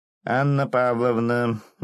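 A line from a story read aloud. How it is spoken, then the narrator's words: Joyful distant shout. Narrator (Russian): издалека радостно закричал клоун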